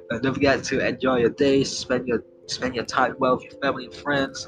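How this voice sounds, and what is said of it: Strained, fading voice. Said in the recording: “I'm losing my voice right now.”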